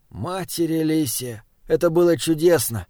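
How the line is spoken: Contented sigh. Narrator (Russian): Он вздохнул, впервые за долгое время не питая зла к окружающему миру

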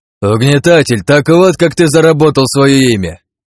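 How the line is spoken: Shouting over noise. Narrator (Russian): перекрывая шум, закричал Агни

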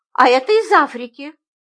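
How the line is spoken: Calm explanation. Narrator (Russian): спокойно объяснила я

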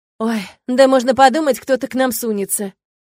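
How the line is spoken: Scoffing. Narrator (Russian): хмыкнул Ворд

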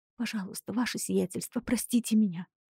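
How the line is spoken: Pleading whisper. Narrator (Russian): шептала Мариам

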